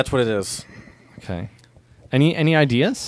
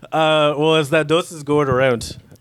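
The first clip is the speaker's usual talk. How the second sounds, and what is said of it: Poor attempt at Irish accent. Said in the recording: “Irish accent... I don't know how to do a proper Irish accent... that was terrible”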